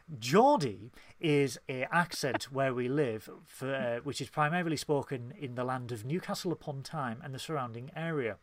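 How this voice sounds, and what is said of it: Speaking in a posher voice. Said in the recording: “I love how you've gone posher for this.”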